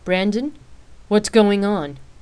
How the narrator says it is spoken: she asked in an irritated tone

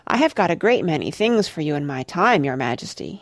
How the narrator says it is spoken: he said

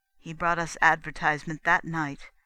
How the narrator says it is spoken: said Astar

